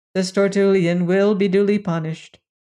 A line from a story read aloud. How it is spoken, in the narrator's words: replied the leader of the Gurnian cops calmly